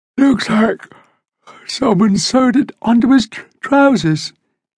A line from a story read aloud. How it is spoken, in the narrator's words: Lisa said with a yawn